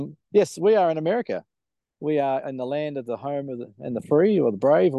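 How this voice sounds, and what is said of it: Usual voice. Nothing is said of it.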